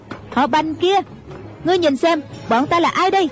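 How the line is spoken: Loud shout. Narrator (Vietnamese): cao giọng quát lên

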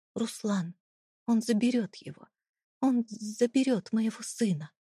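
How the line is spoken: Breathless, breaking into sob. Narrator (Russian): Выдохнула, и ее голос сорвался на отчаянный всхлип

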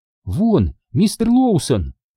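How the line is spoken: Exclamation. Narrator (Russian): воскликнула Анна

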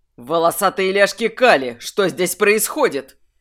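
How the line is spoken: Bark. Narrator (Russian): рявкнул Льер Талик

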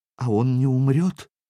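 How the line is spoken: Trembling small voice question. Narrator (Russian): дрожащим голоском поинтересовалась невеста

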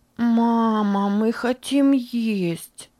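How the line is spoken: Small child whining. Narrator (Russian): захныкала пятилетняя Бетси

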